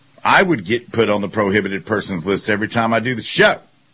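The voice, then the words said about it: Amped-up, loud voice. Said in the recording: “my voice is amped up, so I don't know if that counts as being loud”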